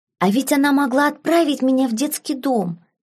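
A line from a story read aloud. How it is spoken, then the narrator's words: Cheerful whisper. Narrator (Russian): весело прошептал Ярвуд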